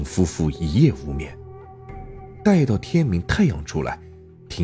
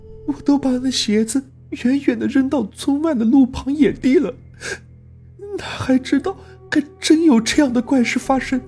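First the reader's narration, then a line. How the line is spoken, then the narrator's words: Weeping. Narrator (Chinese): 春香哭啼道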